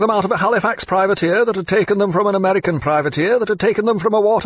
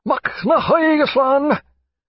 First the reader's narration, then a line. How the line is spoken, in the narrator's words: several of the Irishmen cried